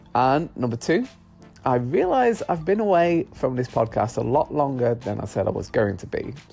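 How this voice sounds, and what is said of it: Congested, blocked-up voice. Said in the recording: “I'm currently full of hay fever, hence why my voice sounds a bit blogged and congested”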